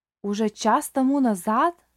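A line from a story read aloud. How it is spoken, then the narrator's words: Old man exclaiming. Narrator (Russian): воскликнул старик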